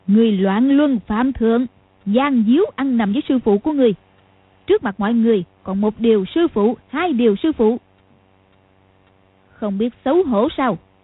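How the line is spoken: Smiling. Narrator (Vietnamese): Lý Mạc Sầu mỉm cười nói

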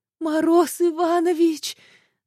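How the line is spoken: Strained wheeze, heavy breathing. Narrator (Russian): Сдавленно просипела, тяжело дыша

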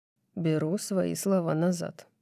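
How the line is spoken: Soft. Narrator (Russian): мягко говорит он

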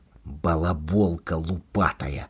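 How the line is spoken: Frightened whisper aloud. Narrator (Belarusian): у голас прашаптаў Макар, спужаўшыся ўласнага голасу

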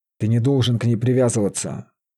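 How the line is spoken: Menacing whisper. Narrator (Russian): грозно шептал маг

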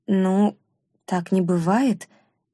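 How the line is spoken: Uncertain. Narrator (Russian): неуверенно проговорила она

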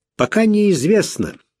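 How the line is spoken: Cheerful. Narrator (Russian): сказал Тейлор, но голос его звучал бодро

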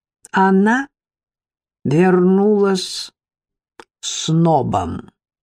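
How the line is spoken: Slow, distinct. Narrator (Russian): Тетя Рита медленно, отчетливо произнесла

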